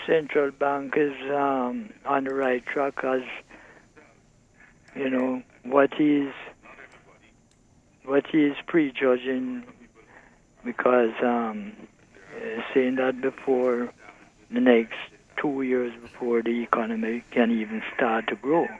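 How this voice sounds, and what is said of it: Speaks with a non-local accent. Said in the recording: “It sounds as though you have an accent.”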